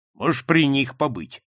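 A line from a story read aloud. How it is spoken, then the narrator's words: Rude reply. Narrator (Russian): грубо ответил он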